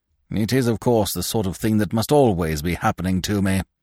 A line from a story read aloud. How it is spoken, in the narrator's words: he grumbled to no one in particular